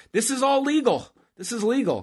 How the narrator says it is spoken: Cole's yelling

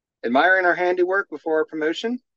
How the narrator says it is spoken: asked Erican

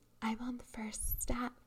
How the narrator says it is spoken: a voice whispered

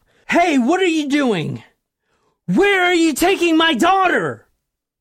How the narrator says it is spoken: the man shouted at his daughter

